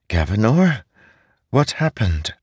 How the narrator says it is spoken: Gav whimpered

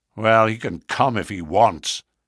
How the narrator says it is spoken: he said in a surly voice

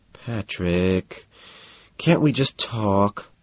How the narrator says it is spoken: he asks, almost whining

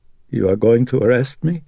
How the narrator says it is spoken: Carl asked in a voice that now quavered

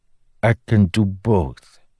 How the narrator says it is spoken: Febrith said solemnly

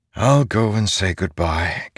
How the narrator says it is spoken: Kaladin said with a sigh

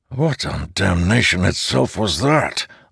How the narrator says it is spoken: Leighton hissed

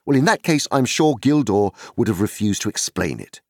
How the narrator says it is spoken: said sharply

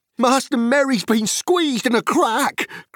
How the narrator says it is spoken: cried Sam

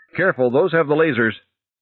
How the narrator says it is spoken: Roth shouting

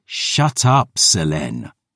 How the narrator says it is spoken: I growled

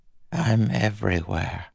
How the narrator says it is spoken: Preservation said, his voice soft, frail

